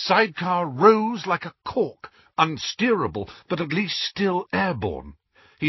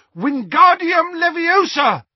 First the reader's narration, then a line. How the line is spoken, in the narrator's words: In desperation, Harry shouted